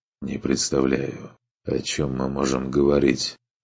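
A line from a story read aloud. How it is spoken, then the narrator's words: Quiet, dejected. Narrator (Russian): Все так же тихо и подавленно произнес Хальтер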